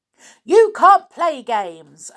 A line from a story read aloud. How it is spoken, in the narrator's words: Amelia Jane shouted